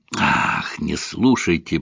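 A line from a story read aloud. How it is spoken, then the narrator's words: Grumble. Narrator (Russian): буркнул Ромейн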